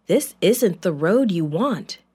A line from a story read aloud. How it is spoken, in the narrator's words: said